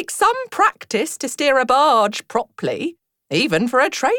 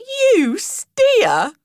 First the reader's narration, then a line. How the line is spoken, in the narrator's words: replied the bargewoman, laughing